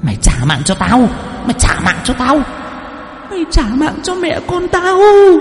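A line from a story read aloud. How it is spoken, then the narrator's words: Woman hissing shrilly. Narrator (Vietnamese): Cô Nở miệng cứ rít lên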